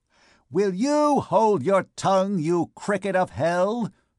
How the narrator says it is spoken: it cried, still from some obscure corner of the place

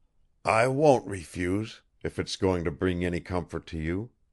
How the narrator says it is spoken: he muttered at last

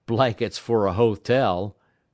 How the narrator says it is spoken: quoth one of the men who laughed

